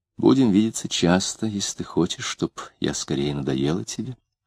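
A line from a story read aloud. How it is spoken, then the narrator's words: Quiet reply. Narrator (Russian): тихонько ответила она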